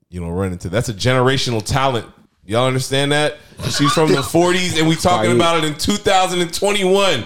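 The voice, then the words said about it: Loud, yelling emphatic speech. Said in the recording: “Why are you yelling at us, dog? ... Why are you yelling at me, man?”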